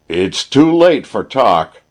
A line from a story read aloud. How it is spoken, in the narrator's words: yelled Sam, infuriated at the prospect of missing his victim after all